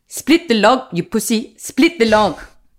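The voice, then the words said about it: Imperfect put-on South African accent. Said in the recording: “So I got very into South African for a while. I'm not very good at it ... I have to hit my consonants a bit harder.”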